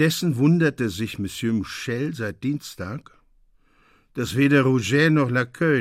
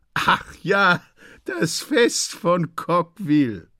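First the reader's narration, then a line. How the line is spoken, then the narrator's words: Laughing. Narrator (German): sagen die Leute lachend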